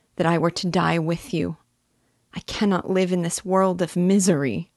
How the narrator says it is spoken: cried she

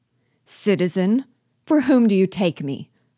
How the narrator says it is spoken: cried Biasu, with anger

